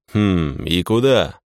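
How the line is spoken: Hmphing. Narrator (Russian): хмыкнул я

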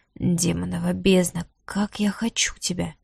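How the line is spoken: Passionate whisper. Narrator (Russian): прошептал он

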